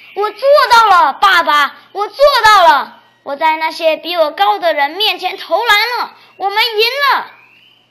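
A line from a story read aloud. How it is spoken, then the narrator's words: Excited shout. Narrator (Chinese): 兴奋的大喊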